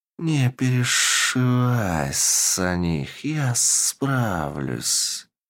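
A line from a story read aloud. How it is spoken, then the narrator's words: Cold voice. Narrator (Russian): Холодным голосом произнес Гильтарт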